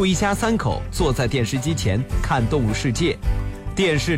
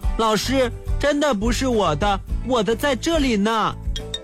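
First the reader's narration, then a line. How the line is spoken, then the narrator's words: Loud. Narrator (Chinese): 小王 大声地说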